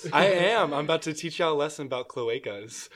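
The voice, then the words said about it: Put-on formal teacher voice. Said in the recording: “You sound like you're putting on your teacher voice.”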